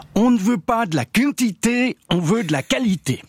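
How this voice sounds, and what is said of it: Put-on Vaudois Swiss French accent. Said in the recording (French): “je vais vous le faire en version originale, telle que cela a été prononcé par Yvan Pahut, conseiller national UDC ... je fais pas aussi bien l'accent vaudois ... la deuxième version, avec accent, a tendance à faire sourire”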